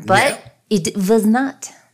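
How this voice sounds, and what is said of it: Put-on Russian accent. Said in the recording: “That's my Russian accent.”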